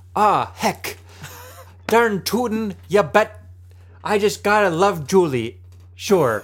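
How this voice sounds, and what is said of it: Put-on Minnesotan accent. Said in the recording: “as the Minnesotans would say ... accent”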